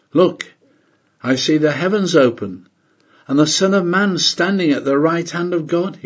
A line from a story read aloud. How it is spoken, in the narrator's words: he exclaims